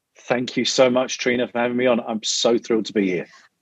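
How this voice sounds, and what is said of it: London English accent. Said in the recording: “Originally, I'm from London, as you can probably tell from my accent.”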